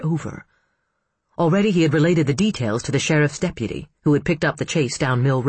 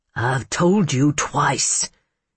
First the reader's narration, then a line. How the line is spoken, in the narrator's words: said through his teeth